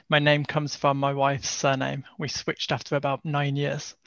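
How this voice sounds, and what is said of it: Birmingham English accent. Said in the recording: “you'll probably detect a bit of a Birmingham accent as opposed to a Dutch or Nordic accent.”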